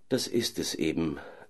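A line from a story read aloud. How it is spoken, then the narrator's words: Sad sigh. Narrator (German): seufzte der Kalif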